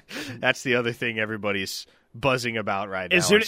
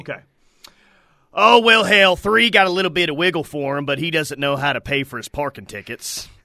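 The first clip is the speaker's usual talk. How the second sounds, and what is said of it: Imitates another person's voice. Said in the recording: “you'll read it in a far better accent than me ... they want Mike Gundy right there”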